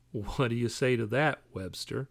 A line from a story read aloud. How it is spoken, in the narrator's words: Holmes said, his tone condescending